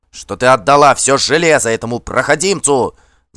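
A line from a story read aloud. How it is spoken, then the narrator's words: Uncontrolled yell. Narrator (Russian): завопил Кар, больше не в силах сдерживаться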